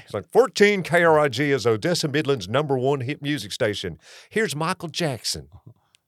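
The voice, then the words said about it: Thick exaggerated accent, old radio-announcer voice. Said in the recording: “the accent because I had it thick. I sounded like a cross between Forrest Gump and Kermit the Frog ... That's how you sounded?”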